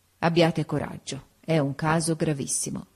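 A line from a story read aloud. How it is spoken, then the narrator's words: Sighing. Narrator (Italian): con un sospiro mi disse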